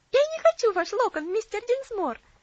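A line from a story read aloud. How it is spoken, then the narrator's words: Cheerful laughing. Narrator (Russian): весело рассмеялась Луси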